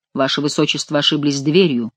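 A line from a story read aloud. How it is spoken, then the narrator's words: Cold, formal. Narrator (Russian): холодно сказал граф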